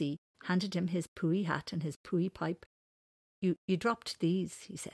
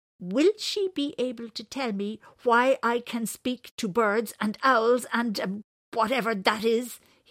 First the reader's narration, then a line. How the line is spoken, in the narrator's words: he snapped